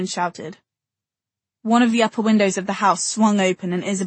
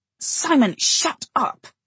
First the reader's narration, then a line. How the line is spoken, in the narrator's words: She hissed